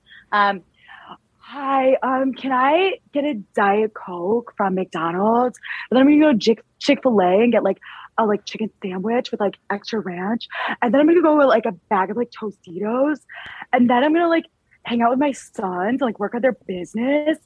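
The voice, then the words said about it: Imitates another person's voice. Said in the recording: “my impression ... Lisa Barlow”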